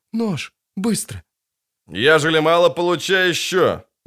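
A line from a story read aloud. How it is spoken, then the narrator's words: Innkeeper's forced exclamation. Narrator (Russian): неестественно воскликнул корчмарь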